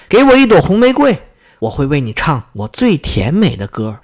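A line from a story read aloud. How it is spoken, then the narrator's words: Loud call. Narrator (Chinese): 他…大声对那棵玫瑰树说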